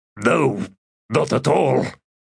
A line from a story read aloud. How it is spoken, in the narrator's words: gasped Sebar